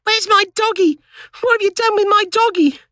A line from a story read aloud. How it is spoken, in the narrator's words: The little boy screamed